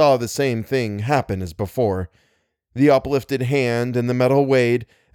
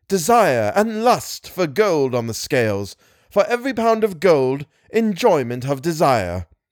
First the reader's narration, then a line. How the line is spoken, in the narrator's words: Then he cried again